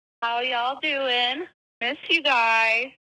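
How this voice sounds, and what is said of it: Put-on Southern drawl. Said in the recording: “I've already acquired a southern drawl ... I can't keep up that accent for a whole message”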